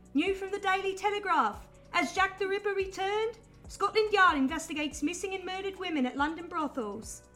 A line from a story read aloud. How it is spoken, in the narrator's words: In the distance, a man selling newspapers shouting